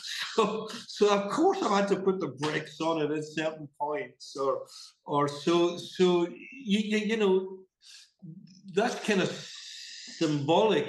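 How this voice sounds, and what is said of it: Mid-Atlantic accent, Glasgow roots softened. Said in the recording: “You've lost your accent. You've got this accent. It's a sort of mid-Atlantic.”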